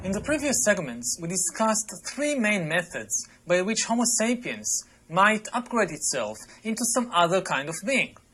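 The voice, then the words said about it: Foreign-accented male speech. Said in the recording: “their accents just creep me out too ... the combination of their accent”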